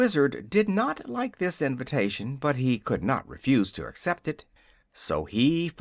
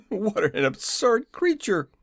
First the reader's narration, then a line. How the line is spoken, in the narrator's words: he exclaimed